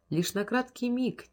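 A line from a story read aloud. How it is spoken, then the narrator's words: Quiet. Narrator (Russian): тихо ответил голос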